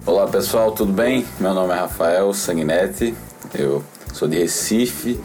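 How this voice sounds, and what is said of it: Northeastern Brazilian Portuguese accent. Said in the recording (Portuguese): “o sotaque mais bonito do Brasil, vem do é, ... Nordeste. ... esse sotaque, é sotaque é muito bonito.”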